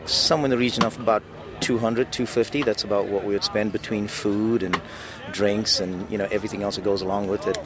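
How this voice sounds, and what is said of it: South African accent. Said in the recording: “Don't let ... accent fool you. He's a native of South Africa”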